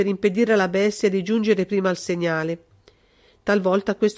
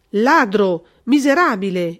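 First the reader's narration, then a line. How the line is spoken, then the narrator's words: Colonel exclaiming. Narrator (Italian): esclamò il colonnello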